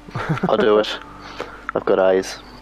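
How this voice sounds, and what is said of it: Put-on Irish accent. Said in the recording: “Why did you go Scottish? ... It's Irish.”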